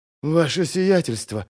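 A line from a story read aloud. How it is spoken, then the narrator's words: Hoarse rasp. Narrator (Russian): прохрипела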